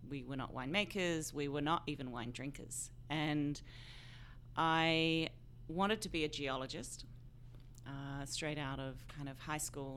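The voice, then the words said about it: Australian accent. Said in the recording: “You are Australian, mm-hmm. hence the accent.”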